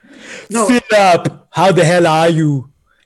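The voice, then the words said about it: Low-effort imitation of Predator voice. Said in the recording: “who are you doing an impression of? Is that Predator ... that's the Predator ... that was a low effort Predator impression”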